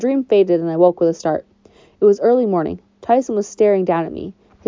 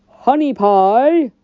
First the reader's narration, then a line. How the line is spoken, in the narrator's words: the monster bellowed